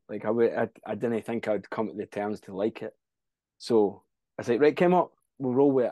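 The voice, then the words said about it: Scottish accent. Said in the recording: “listen to my accent... There is a bit of Scottish when I sing... I hate hearing my original accent”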